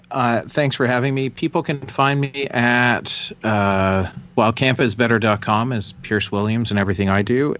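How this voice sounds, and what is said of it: Smooth radio-announcer style voice. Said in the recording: “I like that you have your radio voice”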